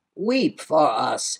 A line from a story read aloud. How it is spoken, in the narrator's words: the Goluks cried